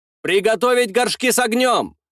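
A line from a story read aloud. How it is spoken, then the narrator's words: Shouted. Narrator (Russian): закричал я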